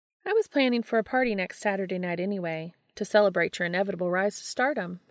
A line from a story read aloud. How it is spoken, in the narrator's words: she said